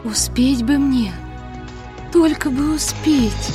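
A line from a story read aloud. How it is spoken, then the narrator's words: Whispering. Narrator (Russian): шептала Несмеяна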